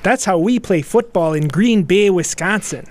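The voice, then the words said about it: Put-on Green Bay Wisconsin accent. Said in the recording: “You can't do the accent if you haven't lived here for as many years as I lived here.”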